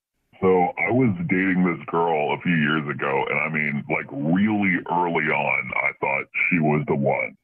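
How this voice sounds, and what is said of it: Voice altered by voice changer. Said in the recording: “Voice changer is on.”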